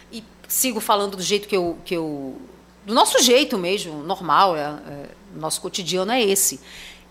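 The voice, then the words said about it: Strong hissing 'sh' sibilant accent. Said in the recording (Portuguese): “Eu sempre chiei muito... a gente chia pra caramba”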